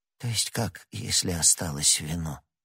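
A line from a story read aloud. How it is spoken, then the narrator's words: Whisper. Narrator (Russian): прошептал он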